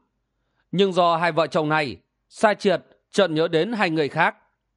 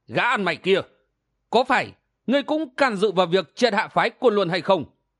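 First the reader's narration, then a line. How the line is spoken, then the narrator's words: Accusing shout. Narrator (Vietnamese): Kim Ngô Công Công tiến lên một bước rồi quát lên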